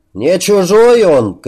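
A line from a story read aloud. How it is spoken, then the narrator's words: Lynx shouting. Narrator (Russian): крикнул кто-то из рысей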